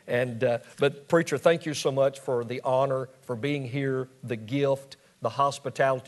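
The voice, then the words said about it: Southern US Mississippi accent. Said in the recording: “he speaks my dialect. I was born and raised in Hattiesburg, Mississippi ... I understand your dialect ... that old Southern dialect”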